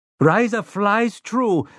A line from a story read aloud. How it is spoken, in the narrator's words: Rosalita Munoz shrieked